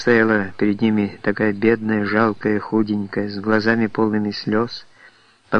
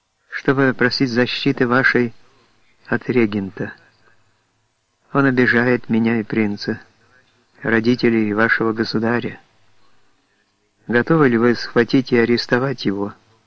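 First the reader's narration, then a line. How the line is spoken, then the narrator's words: Uncertain voice. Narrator (Russian): произнесла неуверенным голосом Анна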